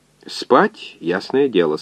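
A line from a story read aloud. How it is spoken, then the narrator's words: Calm reply. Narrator (Russian): спокойно ответил доктор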